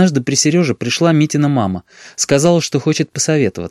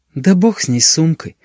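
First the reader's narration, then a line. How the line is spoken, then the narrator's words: Tired. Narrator (Russian): устало произнесла Митина мама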